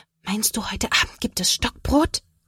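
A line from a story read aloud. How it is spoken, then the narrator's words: Whispered reply. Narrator (German): Sophia flüstert zurück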